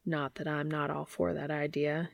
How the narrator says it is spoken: he murmurs

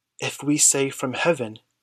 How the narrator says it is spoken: he muttered

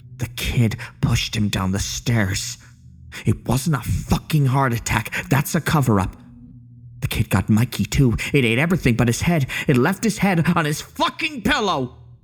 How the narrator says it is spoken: hissed

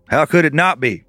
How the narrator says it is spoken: The clerk chuckled to himself, which sounded more like a grumble

